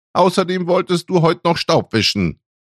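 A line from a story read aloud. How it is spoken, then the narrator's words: Called after someone. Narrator (German): rief sie ihm hinterher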